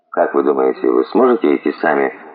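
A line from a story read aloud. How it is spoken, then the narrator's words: Gentle question. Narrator (Russian): спросил мягко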